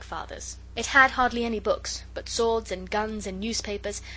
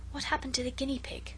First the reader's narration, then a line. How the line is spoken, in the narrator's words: Alice whispered